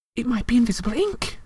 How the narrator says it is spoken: she whispered

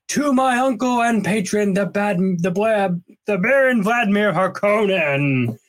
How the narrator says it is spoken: Fade shouted

